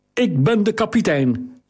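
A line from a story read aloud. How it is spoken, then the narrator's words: Calling to driver. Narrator (Dutch): riep naar de voerman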